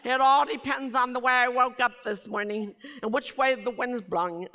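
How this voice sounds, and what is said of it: Noticeable accent, hard to place. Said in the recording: “I know I still talk funny ... You really have an accent ... I've been claimed to be South Africa, British.”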